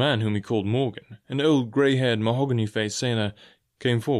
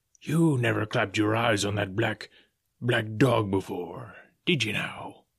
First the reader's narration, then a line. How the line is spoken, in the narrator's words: said Long John Silver very sternly